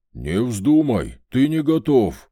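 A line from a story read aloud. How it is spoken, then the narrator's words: Growled. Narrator (Russian): прорычал Вольт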